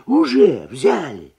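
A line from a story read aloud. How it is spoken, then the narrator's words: Nervous old man exclaiming. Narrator (Russian): нервно воскликнул старый табачник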